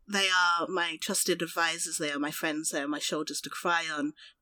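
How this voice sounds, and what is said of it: Very posh accent. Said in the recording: “I have this very posh accent”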